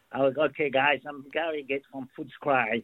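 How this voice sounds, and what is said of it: Australian accent. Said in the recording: “He speaks with an Aussie accent. give us some Australian, will you? Give us an Aussie accent. ... Oh, that's so good.”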